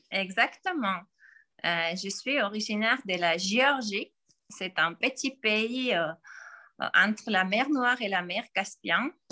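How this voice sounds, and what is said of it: Slight foreign accent in French. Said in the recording (French): “Tu as un petit accent Peut-être que tu viens d'un autre pays que la France”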